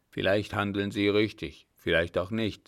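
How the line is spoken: Plain. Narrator (German): sagte

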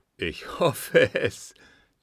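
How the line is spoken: Laughing. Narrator (German): lachte Kunz

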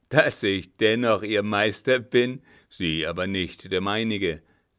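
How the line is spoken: Mocking laugh. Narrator (German): lachte der Gefragte höhnisch

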